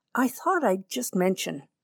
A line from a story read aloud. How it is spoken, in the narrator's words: murmured my father